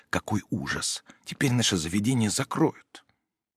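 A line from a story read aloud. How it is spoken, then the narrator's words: Whispered. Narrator (Russian): прошептала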